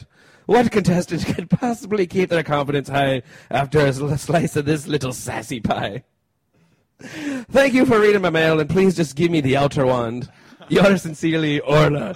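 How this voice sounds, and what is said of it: Put-on Irish accent. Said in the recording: “only worthy of an Irish accent”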